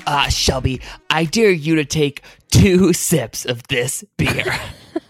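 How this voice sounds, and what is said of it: Imitates a tween's voice. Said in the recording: “That's a really good impression of a tween... You captured the essence of an 11-year-old.”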